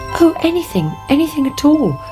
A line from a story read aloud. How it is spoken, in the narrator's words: cried the princess